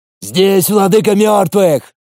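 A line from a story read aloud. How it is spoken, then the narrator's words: Shouting. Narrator (Russian): закричал Иван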